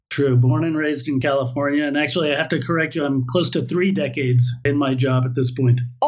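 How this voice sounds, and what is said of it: American accent. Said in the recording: “you are an American by birth, which is why you have an American accent.”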